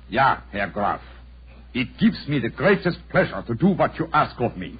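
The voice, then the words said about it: Convincing put-on foreign accent. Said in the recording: “my accent, you find it reasonably convincing? ... Extremely so ... Splendid, Herr Holmes. Splendid.”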